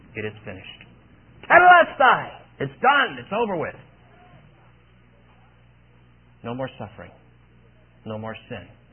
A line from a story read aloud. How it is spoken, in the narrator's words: he shouts out